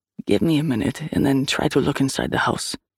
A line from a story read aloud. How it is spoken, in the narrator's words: he murmured